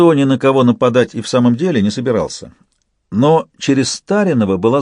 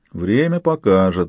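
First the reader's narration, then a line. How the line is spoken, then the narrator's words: Thoughtful grumbling mutter. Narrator (Russian): задумчиво пробурчал Салейко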